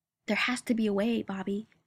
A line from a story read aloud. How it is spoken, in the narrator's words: Sam says, desperately